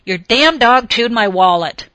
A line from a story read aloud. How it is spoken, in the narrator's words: he shouted as he charged into the granary